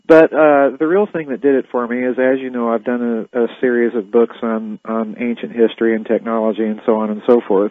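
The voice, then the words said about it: Voice slightly affected by a cold. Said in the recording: “I've got a little bit of a cold.”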